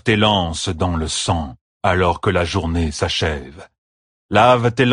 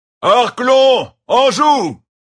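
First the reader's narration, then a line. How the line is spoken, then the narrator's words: Shouted. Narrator (French): cria Tam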